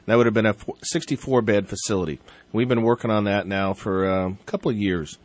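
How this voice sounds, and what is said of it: Voice affected by a cold. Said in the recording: “excuse my voice, working on a little bit of a cold”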